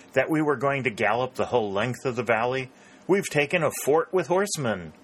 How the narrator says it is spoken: exclaimed Pennington

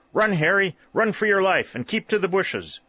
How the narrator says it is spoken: Clair cried also

